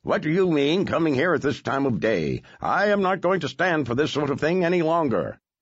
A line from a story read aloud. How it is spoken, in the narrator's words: Scrooge, who exclaims